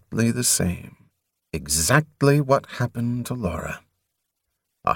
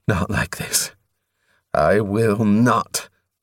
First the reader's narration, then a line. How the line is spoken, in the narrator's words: he panted